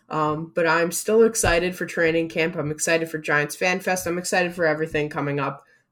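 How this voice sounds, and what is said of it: Flat, monotone voice. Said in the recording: “I'm a little bit monotone”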